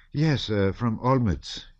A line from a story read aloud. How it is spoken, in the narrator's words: he answered with a sigh